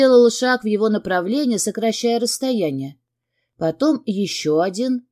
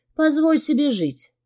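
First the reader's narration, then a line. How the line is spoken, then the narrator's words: Soft murmur against lips. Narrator (Russian): пролепетала в его губы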